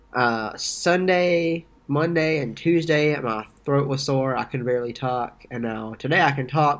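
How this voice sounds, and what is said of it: Congested, stuffy nasal voice. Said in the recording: “you sound a little congested ... my nose has stopped up, so I sound weird”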